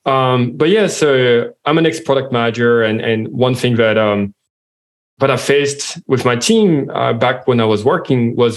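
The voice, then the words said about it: French accent in English. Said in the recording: “as you can hear from my accent, I'm French.”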